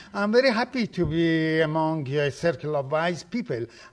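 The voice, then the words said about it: Foreign immigrant accent. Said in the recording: “I apologize for my accent ... an immigrant is a person who has lost everything except the accent”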